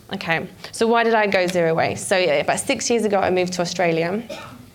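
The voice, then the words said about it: Slight Australian twang. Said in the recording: “you can probably hear a bit of an Aussie twang at the end. I'm not from Australia, but I lived there for five years.”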